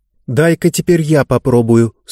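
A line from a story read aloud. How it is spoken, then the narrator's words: Plain. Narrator (Russian): сказала Занна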